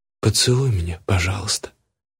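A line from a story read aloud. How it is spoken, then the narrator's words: Quiet, tearful. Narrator (Russian): сказала она тихо, а у самой слезы в глазах стоят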